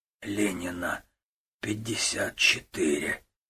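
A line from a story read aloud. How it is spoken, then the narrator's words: Hoarse, strained. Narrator (Russian): Гуров хрипло выдавил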